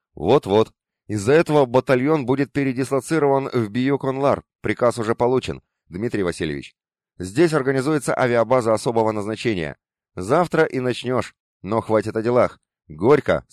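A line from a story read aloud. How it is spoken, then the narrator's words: Plain. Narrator (Russian): сказал Бархоткин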